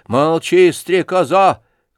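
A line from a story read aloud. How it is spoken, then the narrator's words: Angry shout. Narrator (Russian): крикнул на нее Лебедев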